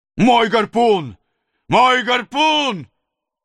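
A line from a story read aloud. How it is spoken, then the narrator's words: Howling. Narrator (Russian): вопил Недленд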